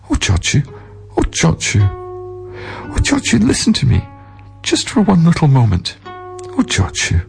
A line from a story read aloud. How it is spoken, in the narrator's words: pleaded